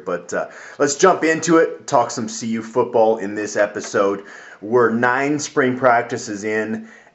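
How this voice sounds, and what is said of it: Warped, congested voice from a cold. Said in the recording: “I'm still like battling colds ever since I got back from Las Vegas. So my voice is pretty warped here.”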